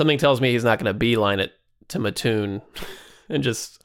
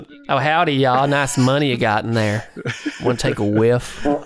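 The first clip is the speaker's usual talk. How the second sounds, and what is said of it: Put-on Virginia Southern accent. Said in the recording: “Nazis often had that accent. ... This Nazi happened to be from Botetourt County, Virginia.”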